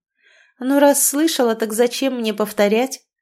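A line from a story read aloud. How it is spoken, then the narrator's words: Contemptuous snort. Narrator (Russian): ответила Марина, презрительно фыркнув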